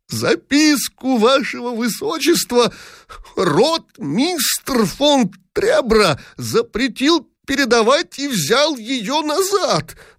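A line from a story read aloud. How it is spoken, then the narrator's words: Creaky, extremely agitated voice. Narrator (Russian): проскрипел в последней степени возбуждения Дибич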